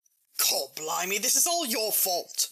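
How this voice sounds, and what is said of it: Slipping into a rough working-class accent. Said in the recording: “you've lost control of the situation. And your accent... started talking like a fishmonger”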